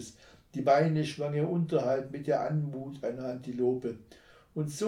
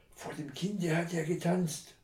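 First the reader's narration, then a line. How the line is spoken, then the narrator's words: Hissing snake. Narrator (German): zischte die Schlange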